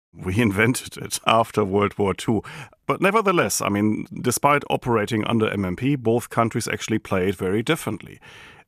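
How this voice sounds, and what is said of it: German accent. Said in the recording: “It's impossible, of course, to get my German accent out of me.”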